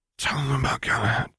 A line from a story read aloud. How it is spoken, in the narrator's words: whispered Remus in a single burst of breath